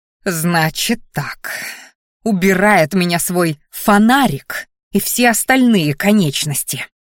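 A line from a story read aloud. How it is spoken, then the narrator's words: Hiss. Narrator (Russian): зашипела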